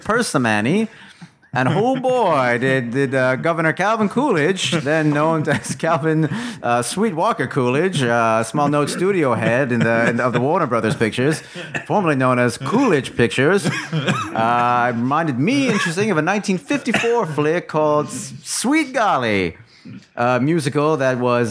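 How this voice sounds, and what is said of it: Old-time newsreel announcer voice. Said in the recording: “your impression of Elliot is like an old-time newsreel announcer”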